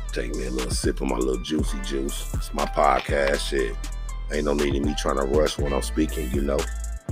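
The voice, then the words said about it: Raspy voice. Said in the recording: “got me all sounding raspy”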